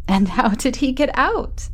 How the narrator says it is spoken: I laughed

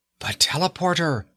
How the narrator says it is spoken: Margot cried

